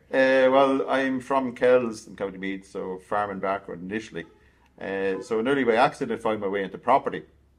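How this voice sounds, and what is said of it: Irish accent, not a Dublin one. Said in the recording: “you don't sound like you're from Tallaght... We're not of a Dublin accent, no.”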